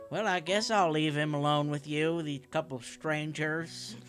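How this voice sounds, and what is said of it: Put-on southern accent. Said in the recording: “Why does everyone in this town have a southern accent?”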